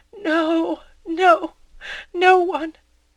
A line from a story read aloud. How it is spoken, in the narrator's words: Emma said in a broken voice